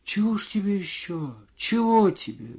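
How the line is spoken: Woman, quiet and puzzled. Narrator (Russian): говорила женщина тихо и в недоумении

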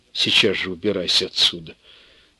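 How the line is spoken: Quiet command. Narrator (Russian): негромко приказала Настя

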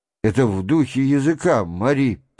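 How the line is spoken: Muttered. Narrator (Russian): пробормотал Шатов

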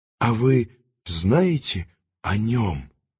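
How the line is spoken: Whispered. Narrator (Russian): шепнула Маргарита

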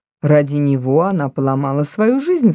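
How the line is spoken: With a slight snort. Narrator (Russian): сказал полковник, слегка фыркнув

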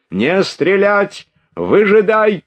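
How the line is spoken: Shouting. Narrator (Russian): кричал он

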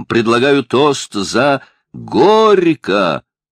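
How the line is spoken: Shout. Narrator (Russian): крикнул кто-то

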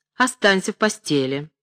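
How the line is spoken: Stern old woman. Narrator (Russian): строго заметила старуха

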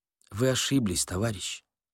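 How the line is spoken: Very quiet. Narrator (Russian): сказал Корейка очень тихо

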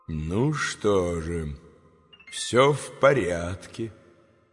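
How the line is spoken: Quiet speech. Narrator (Russian): тихо проговорил замаскированный

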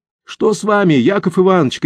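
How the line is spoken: Shouted. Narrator (Russian): крикнул Тулин

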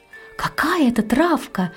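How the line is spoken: Surprised exclamation. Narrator (Russian): воскликнула удивленная Анна

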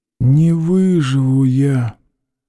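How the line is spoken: Quiet wheezing voice. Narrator (Russian): раздался тихий, хрипящий голос

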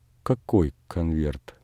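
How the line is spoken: Trembling voice. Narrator (Russian): спросила Варвара дрогнувшим голосом

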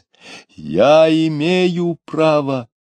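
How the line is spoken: Less loudly. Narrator (Russian): продолжал он уже не так громко

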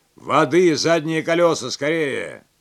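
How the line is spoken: Shout. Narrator (Russian): крикнул Клерфе

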